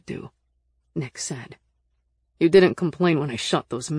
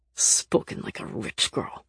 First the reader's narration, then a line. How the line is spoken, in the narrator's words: Nick snarled, with a fury I'd never seen from him before